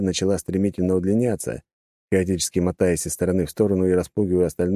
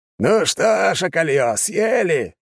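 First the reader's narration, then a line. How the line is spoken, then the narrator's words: Barked. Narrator (Russian): гаркнул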